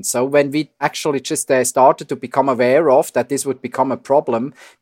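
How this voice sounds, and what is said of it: Swiss accent in English. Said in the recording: “I'm Swiss, as you hear from my accent”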